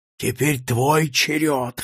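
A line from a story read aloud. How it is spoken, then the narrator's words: Hoarse rasp. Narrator (Russian): хрипит он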